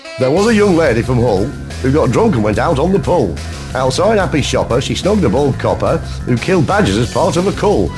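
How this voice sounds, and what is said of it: Put-on northern English accent. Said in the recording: “it's in a northern accent ... That second one only works in a northern accent”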